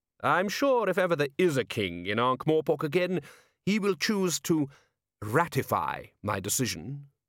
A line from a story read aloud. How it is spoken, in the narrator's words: said Vetinari smoothly